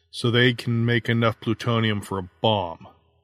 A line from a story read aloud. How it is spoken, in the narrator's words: he said flatly